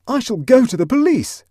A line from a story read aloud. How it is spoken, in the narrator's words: shouted Huddle with sudden energy